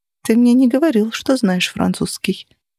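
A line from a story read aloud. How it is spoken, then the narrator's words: Whispered. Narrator (Russian): прошептала я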